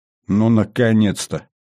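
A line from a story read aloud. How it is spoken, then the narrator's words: Joyless snort. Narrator (Russian): невесело хмыкнул Кобрин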